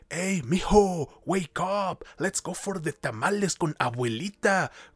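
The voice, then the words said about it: Exaggerated stereotyped Mexican-American accent. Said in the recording (Spanish): “este pinche acento de pueblo ficticio ... esa putada de acento”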